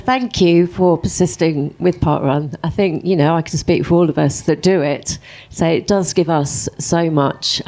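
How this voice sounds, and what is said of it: Emotional, voice choked with feeling. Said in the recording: “I'm getting emotional now”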